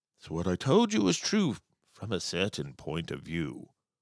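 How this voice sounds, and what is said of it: Imitates a film character's voice. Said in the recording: “that's applause for my Obi-Wan Kenobi impersonation, probably the best one you've ever heard”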